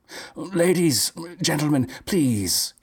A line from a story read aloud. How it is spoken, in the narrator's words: he cried